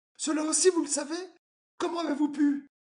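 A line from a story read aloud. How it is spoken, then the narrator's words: Sudden realization exclamation. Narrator (French): une idée subite traversant son cerveau, s'écria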